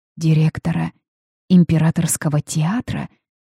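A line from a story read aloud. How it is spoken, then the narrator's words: Weak questioning voice. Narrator (Russian): переспросила слабым голосом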